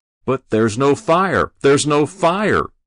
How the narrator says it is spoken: Binder shouted

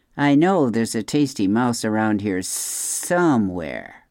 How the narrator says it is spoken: Snakes often hiss to themselves

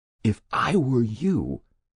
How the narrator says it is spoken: he whispered

